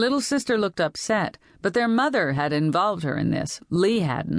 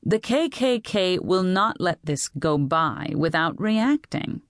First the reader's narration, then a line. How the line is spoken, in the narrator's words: Betty continued in a calmer voice